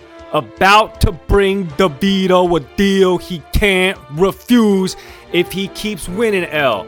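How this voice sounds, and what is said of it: Put-on Jersey accent. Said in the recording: “that's my Jersey accent.”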